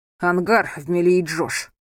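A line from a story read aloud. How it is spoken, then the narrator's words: Irritated. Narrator (Russian): раздраженно произнес он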